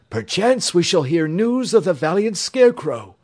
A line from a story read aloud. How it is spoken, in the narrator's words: cried the knight